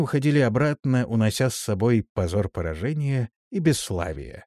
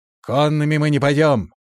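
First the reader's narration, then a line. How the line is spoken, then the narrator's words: Shout. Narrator (Russian): крикнул он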